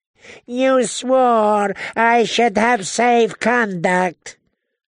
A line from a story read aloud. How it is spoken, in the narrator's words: the Yunkish envoy wailed